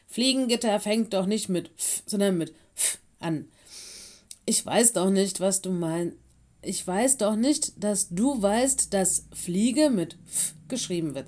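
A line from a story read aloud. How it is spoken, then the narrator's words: Said with a giggle. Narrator (German): sagte Mino und kicherte ebenfalls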